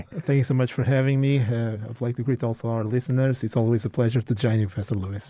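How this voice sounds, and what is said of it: Portuguese-accented English. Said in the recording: “as you can hear, he has a much more fascinating accent than mine ... is from Portugal”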